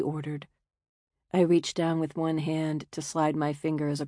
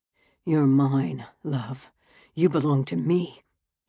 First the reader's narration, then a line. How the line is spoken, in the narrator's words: said, his voice husky